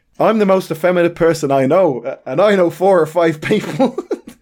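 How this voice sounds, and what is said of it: Poor Irish accent impression. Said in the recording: “I'll do it in the accent... even if I do it badly... Terrible accent”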